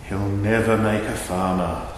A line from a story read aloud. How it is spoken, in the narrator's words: said sadly